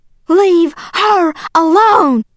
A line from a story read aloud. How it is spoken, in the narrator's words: yelling